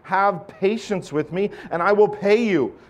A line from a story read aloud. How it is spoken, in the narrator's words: fell down and pleaded with him